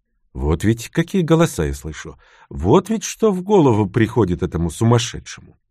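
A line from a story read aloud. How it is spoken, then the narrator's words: Calm, mildly puzzled. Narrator (Russian): спокойно, с легким недоумением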